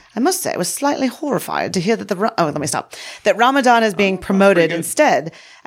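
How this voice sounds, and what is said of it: Put-on British accent. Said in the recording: “I should do this in a British accent.”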